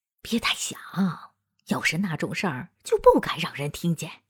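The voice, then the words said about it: Quiet, hushed woman's voice. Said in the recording (Chinese): “荣德雷特的女人小声说”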